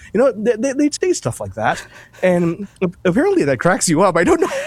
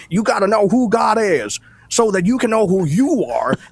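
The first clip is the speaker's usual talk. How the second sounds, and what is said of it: Exaggerated Southern preacher accent. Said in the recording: “pastors preach in a Southern accent ... this British Empire accent that you have to Billy Bob”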